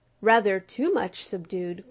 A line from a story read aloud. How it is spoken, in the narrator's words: growled the blundering black beetle